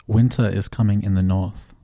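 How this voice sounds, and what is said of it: Put-on English accent, fairly convincing. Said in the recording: “Pretty good, right? ... Yeah, you could pull it off. You could just pretend you're English”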